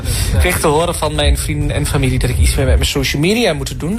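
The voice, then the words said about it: Regional eastern Dutch accent. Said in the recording (Dutch): “aan dat accent snap ik meteen ... het oorste is weer gerepresent”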